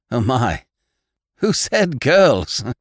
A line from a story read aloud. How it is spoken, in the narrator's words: exclaimed John Thomas